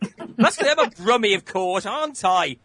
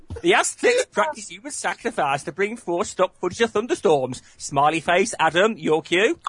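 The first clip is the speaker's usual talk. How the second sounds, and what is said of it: Yorkshire accent slipping into Brummie. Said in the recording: “what happened to the accent then? That suddenly went all Brummy. ... you're supposed to be doing Yorkshire.”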